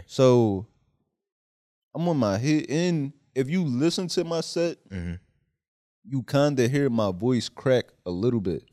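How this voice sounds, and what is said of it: Philadelphia accent. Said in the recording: “you have a Philly accent”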